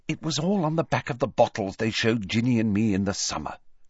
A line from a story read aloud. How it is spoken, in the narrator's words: she said coldly